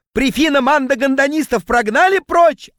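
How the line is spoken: Yelling. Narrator (Russian): орал он

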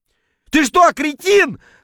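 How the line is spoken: Sputtering yell. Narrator (Russian): вопил я на поверхности, шумно отплевываясь

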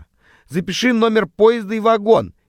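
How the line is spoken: Shouting over train noise. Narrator (Russian): Перекрикивая стук колес, кричала Срака

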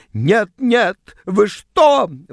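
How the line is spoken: Shrill squeal. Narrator (Russian): взвизгнула она

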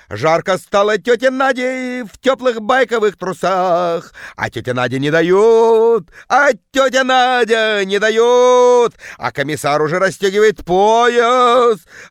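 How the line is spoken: Woman bellowing, deep bass. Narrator (Russian): орала тетка жутким басом

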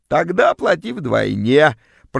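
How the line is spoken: Creaky extortionate voice. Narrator (Russian): проскрипела вымогательница

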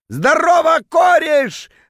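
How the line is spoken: Drunken bellow. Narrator (Russian): заорал он дурным пьяным голосом

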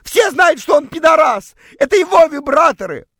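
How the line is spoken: Sudden shout. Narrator (Russian): против всякой логики прокричала

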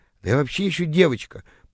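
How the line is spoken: Flustered mumble. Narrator (Russian): пробормотала растерявшаяся тыква

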